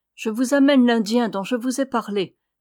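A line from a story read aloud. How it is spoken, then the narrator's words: Plain. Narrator (French): dit-elle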